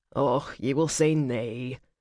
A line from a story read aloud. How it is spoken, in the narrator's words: Angus mumbled